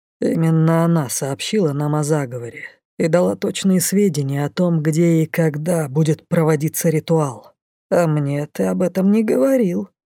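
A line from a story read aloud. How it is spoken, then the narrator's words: Reproachful grumble. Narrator (Russian): укоризненно буркнул Рыжик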